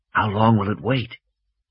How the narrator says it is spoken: Malcolm whispered

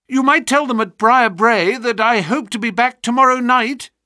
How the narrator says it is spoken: cried Phelps

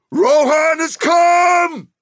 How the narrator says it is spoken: Captains were shouting

